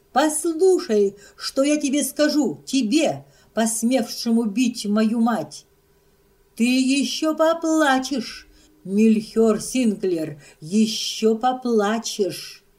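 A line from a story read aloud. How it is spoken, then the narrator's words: Cold furious shout. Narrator (Russian): она все же поднялась в неистовом холодном гневе и закричала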